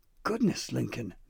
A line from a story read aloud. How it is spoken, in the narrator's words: Nana West panted